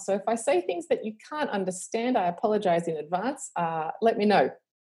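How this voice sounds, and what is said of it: Australian accent. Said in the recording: “I live in Australia, obviously, with my accent, which is decreasing in global accent”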